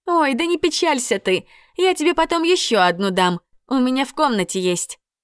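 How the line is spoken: Cheerful promise. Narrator (Russian): весело пообещала Индрис

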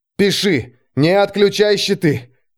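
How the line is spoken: Hoarse outburst. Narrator (Russian): Вырвалось хрипом

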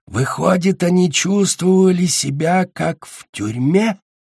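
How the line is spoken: Hiss. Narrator (Russian): Прошипел Наутилус

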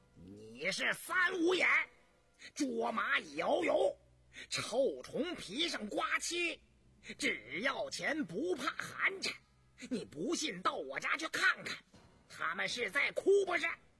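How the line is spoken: Furious roar. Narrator (Chinese): 胤娥勃然大怒，冲胤禛吼道

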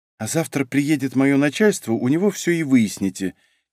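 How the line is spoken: Quiet. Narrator (Russian): тихо отозвалась девушка

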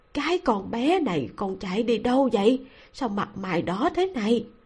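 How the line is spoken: Quiet, worried. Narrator (Vietnamese): Ngô phu nhân gương mặt mang theo vẻ lo lắng nhiều hơn là trách cứ, nhỏ giọng nói

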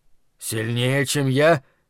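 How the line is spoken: Hoarse question. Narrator (Russian): хрипло спросил тот

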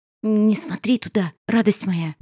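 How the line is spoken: Whisper. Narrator (Russian): прошептала она

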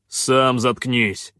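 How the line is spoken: Barking shout. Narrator (Russian): рявкнул Хан

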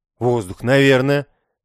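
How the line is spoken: Hesitant, unsure. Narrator (Russian): после секундной задержки ответил я, немного неуверенно

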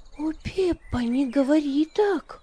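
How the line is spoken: Indignant exclamation. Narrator (Russian): воскликнула Магдалина, пришедшая в негодование от подобной мысли

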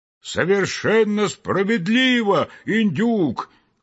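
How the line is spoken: Very loud group shout. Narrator (Russian): Крикнули все разом так громко

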